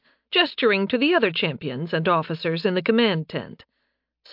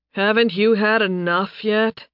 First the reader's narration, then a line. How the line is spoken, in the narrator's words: Nathan groaned